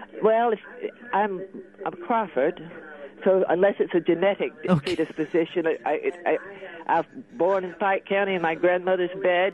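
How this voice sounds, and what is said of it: Slight British-sounding accent. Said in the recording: “I can tell you got a little bit of a British accent there”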